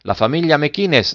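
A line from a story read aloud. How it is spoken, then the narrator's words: Plain. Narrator (Italian): disse il bottegaio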